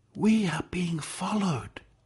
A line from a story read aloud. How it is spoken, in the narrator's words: Atul whispered